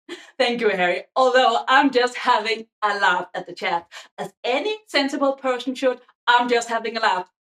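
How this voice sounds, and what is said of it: Danish accent. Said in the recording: “a pretty mid-Danish person with a potato accent”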